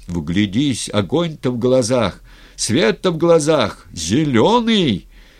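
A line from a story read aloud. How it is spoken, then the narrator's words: Loud, nearly shouting cleric. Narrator (Russian): Митрополит говорил громко, почти кричал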